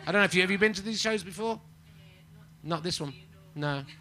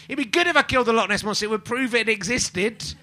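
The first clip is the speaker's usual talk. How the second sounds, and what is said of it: Shouting in put-on Scottish accent. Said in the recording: “That's an impression of a Scottish person ... a man shouting in a Scottish accent”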